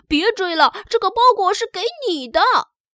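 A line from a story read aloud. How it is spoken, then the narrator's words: Shouting. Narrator (Chinese): 邮递员也大喊道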